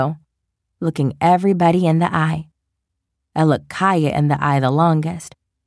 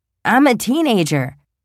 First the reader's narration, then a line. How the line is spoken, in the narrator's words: she blurts out